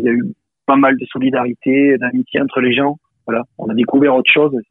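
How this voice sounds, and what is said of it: Aveyron regional French accent. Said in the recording (French): “vous êtes originaire de l'Aveyron ... Je crois que ça s'entend avec l'accent. ... Ça s'entend avec l'accent, effectivement.”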